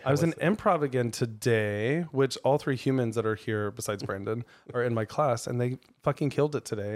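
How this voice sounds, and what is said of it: Weird, strained, partly lost voice. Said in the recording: “my voice is weird right now because, did I have vodka? ... I lose my voice ... like a prepubescent”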